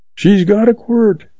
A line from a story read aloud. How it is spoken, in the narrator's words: he yells back